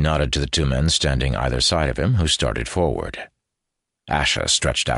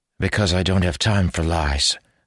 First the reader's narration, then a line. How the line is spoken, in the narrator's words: said Asha grimly